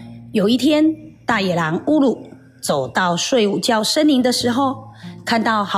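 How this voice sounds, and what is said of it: Usual voice. Nothing is said of it.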